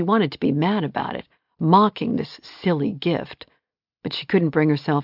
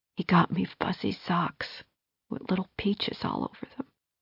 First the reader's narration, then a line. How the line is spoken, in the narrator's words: she whispered, the tears starting up fresh